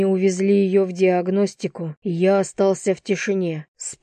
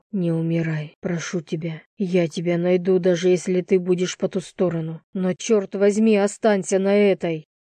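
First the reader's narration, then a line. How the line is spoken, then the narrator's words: Whisper. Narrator (Russian): уткнулся в ладони и прошептал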